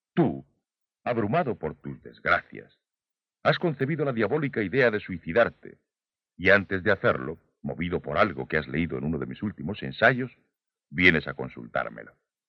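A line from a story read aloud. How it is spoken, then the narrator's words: Authoritative emphasis. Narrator (Spanish): recalqué este tú con un tono autoritario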